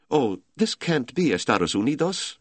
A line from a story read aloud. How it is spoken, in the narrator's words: a woman cried